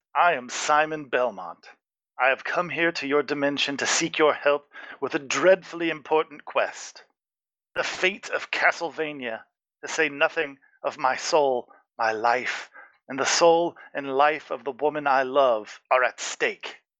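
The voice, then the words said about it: Character voice with distinct accent. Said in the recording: “a distinct accent.”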